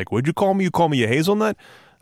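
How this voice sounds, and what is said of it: Put-on New York accent. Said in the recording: “I don't know why he has a New York accent. I can't do a Boston accent.”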